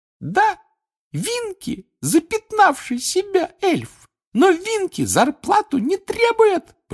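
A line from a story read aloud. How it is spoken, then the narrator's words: Squeaky voice. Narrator (Russian): пропищала она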